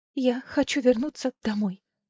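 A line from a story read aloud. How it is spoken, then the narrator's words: Slightly trembling declaration. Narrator (Russian): слегка дрожащим голосом заявила она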